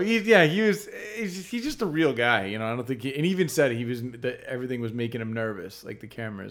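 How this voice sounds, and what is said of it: Usual voice. Nothing is said of it.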